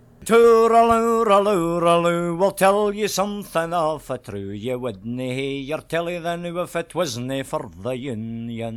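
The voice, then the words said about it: Scottish accent, singing. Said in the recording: “this is Scottish Union music. And I love the accent.”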